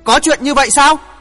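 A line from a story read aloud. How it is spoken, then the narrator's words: Enraged shout. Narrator (Vietnamese): Hoàng Thượng Chí máu nóng sôi lên, thét lớn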